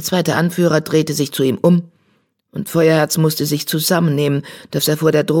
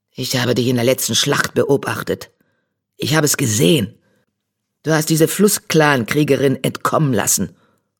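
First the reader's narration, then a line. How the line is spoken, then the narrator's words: Hiss. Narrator (German): fauchte er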